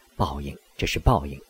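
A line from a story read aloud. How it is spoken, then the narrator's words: Weak, exhausted voice. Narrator (Chinese): 有气无力地说了一句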